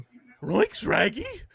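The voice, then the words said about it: Cartoon dog character voice. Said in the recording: “Scooby impression... That was like Scooby and Courage combined.”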